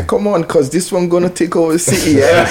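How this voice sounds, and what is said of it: British accent imitating another person. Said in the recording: “you threw on the British accent... that's the fucking perfect Flash fucking impersonation”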